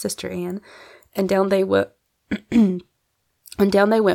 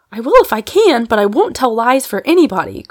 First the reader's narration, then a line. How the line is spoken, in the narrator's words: cried Polly, getting excited